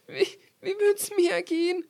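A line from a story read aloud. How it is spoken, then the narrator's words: Called out. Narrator (German): rief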